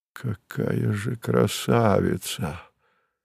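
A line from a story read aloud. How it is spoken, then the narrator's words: Admiring breathy exclamation. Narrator (Russian): с восхищением выдохнул Савва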